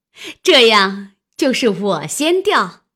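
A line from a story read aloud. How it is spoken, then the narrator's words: Laughing. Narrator (Chinese): 探春笑道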